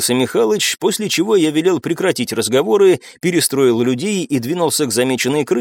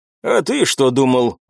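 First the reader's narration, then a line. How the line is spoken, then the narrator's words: Old gamekeeper grumbling. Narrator (Russian): проворчал отставной егерь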